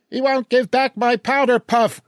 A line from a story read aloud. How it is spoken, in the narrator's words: Gloria shrieks